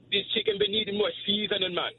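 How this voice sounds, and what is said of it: Put-on Jamaican cooking-show accent. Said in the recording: “I have to do like a Jamaican accent, like I'm on a cooking show”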